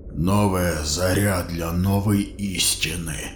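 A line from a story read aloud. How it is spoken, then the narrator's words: Mumbling. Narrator (Russian): пробормотал Шаваль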